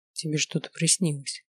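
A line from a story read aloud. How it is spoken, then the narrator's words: Quiet, uneasy. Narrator (Russian): тихо заметил Таир, чувствуя странное смятение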